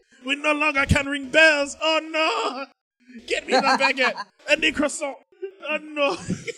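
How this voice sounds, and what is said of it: Exaggerated mock French accent. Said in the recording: “What accent is that transitioning to? ... I don't even know where you went with that. ... Like dirty Frenchman.”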